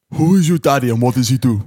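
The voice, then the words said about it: Imitates another person's voice. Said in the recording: “the best Arnie impression ... my worst impression yet”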